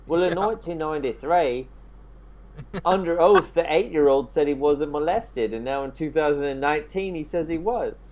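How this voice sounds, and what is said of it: Attempted Australian accent. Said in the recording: “I'm trying to do an Australian accent”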